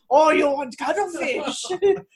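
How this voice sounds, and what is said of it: Put-on accent. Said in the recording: “You're not allowed to do an accent”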